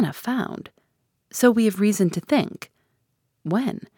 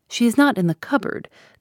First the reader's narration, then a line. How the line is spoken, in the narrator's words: dryly assured